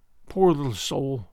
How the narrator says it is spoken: she murmured

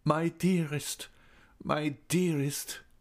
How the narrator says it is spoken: he moaned

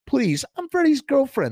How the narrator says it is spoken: the girl cried

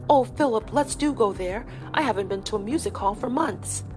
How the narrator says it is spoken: cried out

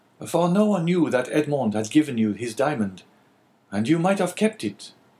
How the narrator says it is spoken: cried Caderousse

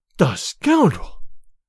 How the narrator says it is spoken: cried Olga

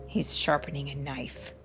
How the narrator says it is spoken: the bone whispered

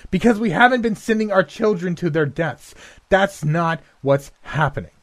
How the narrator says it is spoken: shouted in her face

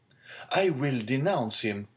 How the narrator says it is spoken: exclaimed the young man hastily

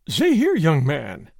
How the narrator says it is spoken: gasped

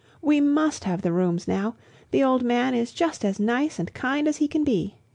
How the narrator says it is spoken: cried Lucy to her cousin

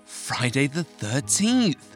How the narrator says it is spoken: gasped Marianne

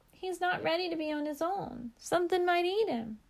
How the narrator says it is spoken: Heather cried

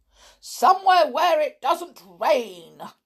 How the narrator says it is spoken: cried Mr

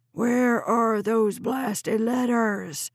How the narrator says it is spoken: Chuck was bellowing in her face, his fury

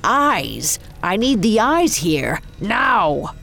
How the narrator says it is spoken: Coppelius cried out in a haunting tone

